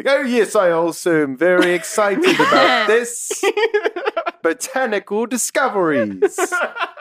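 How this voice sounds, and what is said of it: Exaggerated put-on accent. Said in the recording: “I'm going to match his accent ... Dick Van Dyke”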